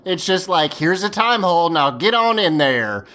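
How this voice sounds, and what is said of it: Brief put-on Appalachian Southern accent. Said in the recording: “Where did that accent come from when you started talking about the time hole? ... I assume Appalachia ... south ... like, an accent when you're talking about time holes”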